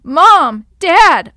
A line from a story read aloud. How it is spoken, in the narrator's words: yelled